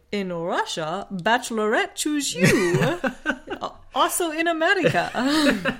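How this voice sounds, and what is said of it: Weak attempted Russian accent. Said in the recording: “can you do a Russian accent now ... That's not even a Russian accent.”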